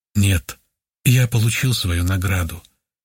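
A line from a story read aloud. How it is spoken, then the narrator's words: Calm, thoughtful male reply. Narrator (Russian): спокойно и несколько задумчиво ответил он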